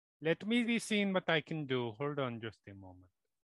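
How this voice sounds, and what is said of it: Put-on fantasy accent, sounds Indian. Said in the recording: “I forgot about your drow accent. ... It's changed. ... It always changes. ... You just went to like Indian tech support.”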